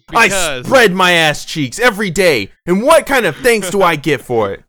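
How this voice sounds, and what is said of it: Bad New York accent impression. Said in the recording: “I was picturing what Kevin James Subway cop would say about that issue ... I'm doing his bad New York accent, too.”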